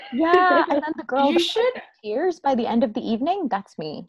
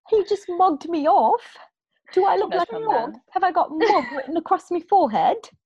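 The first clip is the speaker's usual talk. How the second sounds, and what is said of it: Put-on British accent. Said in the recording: “How's my accent, guys? ... On point. ... my British accents.”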